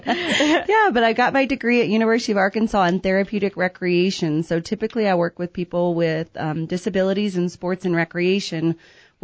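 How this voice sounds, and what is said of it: Slight Southern drawl. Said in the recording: “I am from Arkansas, so if you start to hear a little bit of a drawl”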